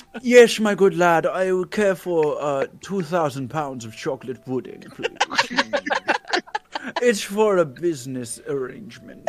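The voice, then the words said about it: Put-on accent, disguised voice. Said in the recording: “That's where the accents come in.”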